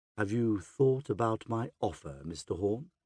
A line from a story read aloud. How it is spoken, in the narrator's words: Xenophon asks